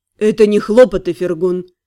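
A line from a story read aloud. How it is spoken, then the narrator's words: Stern correction. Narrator (Russian): строго поправил Лорлен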